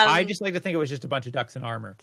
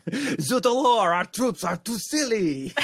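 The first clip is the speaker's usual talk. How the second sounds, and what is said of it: Bad put-on French accent. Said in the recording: “that was the worst French accent I think I've done.”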